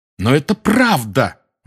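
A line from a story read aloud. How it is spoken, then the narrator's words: Exclaim. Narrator (Russian): воскликнул Гарри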